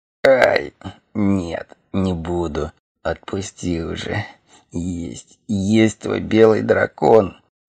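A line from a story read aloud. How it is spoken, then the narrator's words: Growled. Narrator (Russian): Зарычал Хорг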